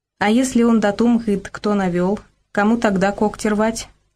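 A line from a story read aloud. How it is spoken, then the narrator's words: Plain. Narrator (Russian): наконец спросил Борька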